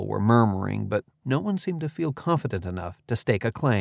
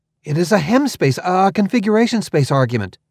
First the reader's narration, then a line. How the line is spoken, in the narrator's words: I blurted, before I'd even thought about it